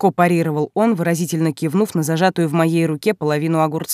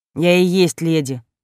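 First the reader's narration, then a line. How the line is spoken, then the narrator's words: Displeased grumble. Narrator (Russian): недовольно пробурчала в ответ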